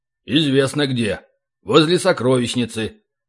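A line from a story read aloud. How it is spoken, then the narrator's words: Snorting. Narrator (Russian): хмыкнул Ори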